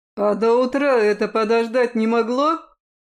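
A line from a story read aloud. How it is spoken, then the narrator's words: Fierce growl. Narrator (Russian): Рыкнул я так, что она вздрогнула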